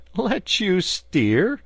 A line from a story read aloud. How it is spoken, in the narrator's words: replied the barge-woman, laughing